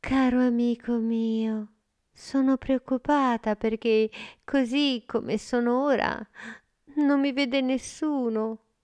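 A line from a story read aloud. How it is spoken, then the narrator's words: Sigh. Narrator (Italian): Amanda sospirò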